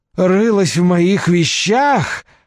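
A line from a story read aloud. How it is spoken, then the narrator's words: Yelling. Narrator (Russian): завопил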